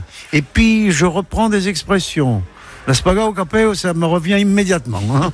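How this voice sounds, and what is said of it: Light southern French accent. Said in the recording (French): “cet accent teinté de soleil ... il arrive très très bien à prendre l'accent méridional”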